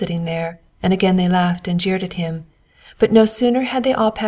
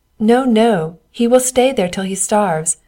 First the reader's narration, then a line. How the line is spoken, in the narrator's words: said the king's men as they passed by, and laughed so heartily at him